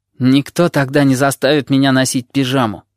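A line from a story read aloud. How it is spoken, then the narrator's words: Grumbling. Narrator (Russian): проворчал Горбач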